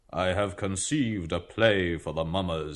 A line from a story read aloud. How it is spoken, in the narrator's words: he said solemnly